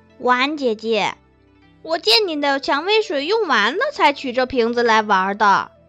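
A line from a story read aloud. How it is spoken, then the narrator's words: Giggling, unafraid. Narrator (Chinese): 仲克嘻嘻笑着，并不害怕，对冯婉儿道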